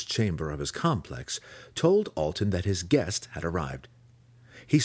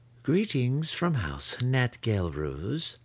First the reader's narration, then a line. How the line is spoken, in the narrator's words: Matron Sinefe said